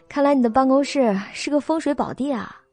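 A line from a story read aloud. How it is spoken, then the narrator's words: Admiring exclamation. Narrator (Chinese): 肖九九感叹道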